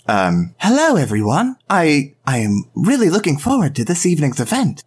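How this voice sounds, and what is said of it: Put-on cartoon character voice. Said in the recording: “give me a Toon Bakura voice ... Base Bakura is like,”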